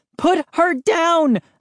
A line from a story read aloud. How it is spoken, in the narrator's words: shouted breathlessly